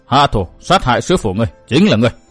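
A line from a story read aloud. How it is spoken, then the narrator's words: Cold speech. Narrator (Vietnamese): Bóng U Linh lạnh lùng nói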